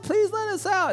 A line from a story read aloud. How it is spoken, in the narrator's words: Whining and crying